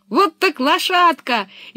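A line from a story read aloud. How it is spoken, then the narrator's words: Cheerful shout. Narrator (Russian): весело закричала Пеппи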